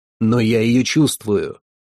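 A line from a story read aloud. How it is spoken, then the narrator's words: Exclaimed. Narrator (Russian): воскликнул Вигмар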